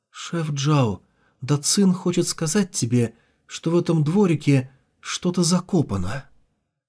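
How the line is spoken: Barely audible, sighing. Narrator (Russian): Вздохнув, Ван Джен едва слышно произнесла

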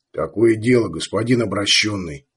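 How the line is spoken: Quiet, very serious. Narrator (Russian): сказал тихо, очень серьезно

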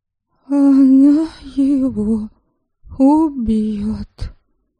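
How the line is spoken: Sad statement from behind. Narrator (Russian): печально констатировала за моей спиной Криста

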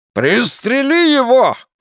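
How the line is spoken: Barking. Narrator (Russian): рявкнул Флэг

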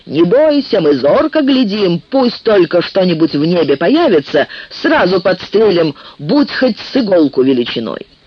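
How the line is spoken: Warriors shouting back. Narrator (Russian): Воины крикнули в ответ

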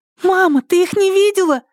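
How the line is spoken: Surprised squeak. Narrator (Russian): удивленно пропищала Мила

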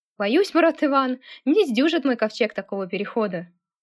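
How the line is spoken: Laughing loudly. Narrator (Russian): расхохотался Андрей

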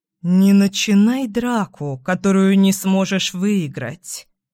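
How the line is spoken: Low threatening voice. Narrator (Russian): угрожает Эйден низким голосом

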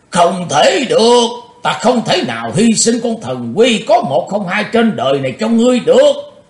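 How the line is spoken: Old man roaring. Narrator (Vietnamese): Ông lão gầm lên

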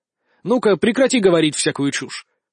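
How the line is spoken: Stern interruption. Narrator (Russian): строго прервал ее

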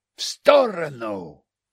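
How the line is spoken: Barking command. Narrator (Russian): рявкнул я крестьянину-утопленнику

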